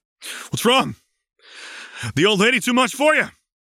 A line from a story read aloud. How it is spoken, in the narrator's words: Vi shouted as she and Caitlin came sprinting out from the risen platform